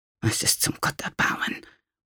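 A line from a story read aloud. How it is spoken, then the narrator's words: Cook muttering. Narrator (German): murmelte die Köchin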